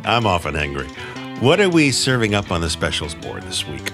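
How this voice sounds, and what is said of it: Comic character voice. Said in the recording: “doing my sweaty balls voice ... You are so doing the sweaty balls voice”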